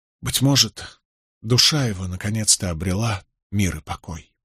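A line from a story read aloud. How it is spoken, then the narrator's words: Barely audible. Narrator (Russian): Нетти произнес едва слышно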